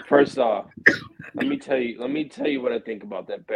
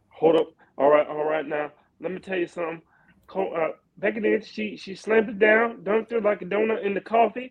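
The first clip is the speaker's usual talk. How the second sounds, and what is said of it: Imitates another person's voice. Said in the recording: “my best Charles Barkley impression”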